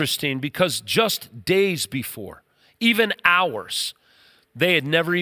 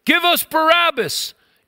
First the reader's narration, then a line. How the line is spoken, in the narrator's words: when the crowd got so angry, they began to yell